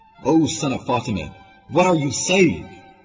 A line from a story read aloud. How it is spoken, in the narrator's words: yelled